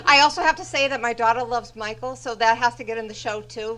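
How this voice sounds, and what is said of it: Massachusetts accent. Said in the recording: “I think I hear a Massachusetts accent.”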